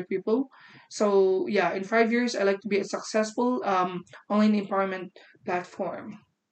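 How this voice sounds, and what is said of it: Arabic accent in English. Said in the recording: “you have the cutest Arabic accent”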